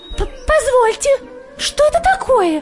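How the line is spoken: Small creature squeaking. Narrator (Russian): запищала козявочка

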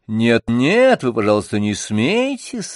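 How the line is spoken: Cheerful. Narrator (Russian): весело говорила Анна

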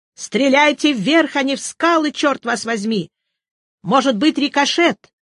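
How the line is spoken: Shouted. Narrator (Russian): Ньюстед крикнул

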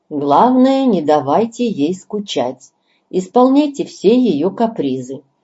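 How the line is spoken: Loud. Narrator (Russian): главный доктор говорит громко

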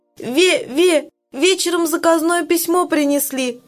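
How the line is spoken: Sobbing. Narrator (Russian): рассказывает Галя, всхлипывая

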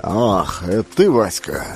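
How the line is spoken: Embarrassed mutter. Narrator (Russian): смущенно пробормотал Александр Иванович

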